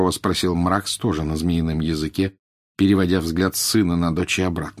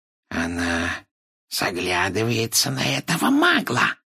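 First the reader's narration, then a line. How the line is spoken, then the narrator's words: Hissed angrily. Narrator (Russian): прошипел Морфин, злобно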